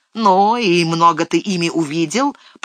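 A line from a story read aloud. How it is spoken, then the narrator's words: Grumbling. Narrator (Russian): проворчал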